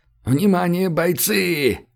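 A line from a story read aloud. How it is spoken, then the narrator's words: Strained yell into microphone. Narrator (Russian): Срывая связки, заорал в микрофон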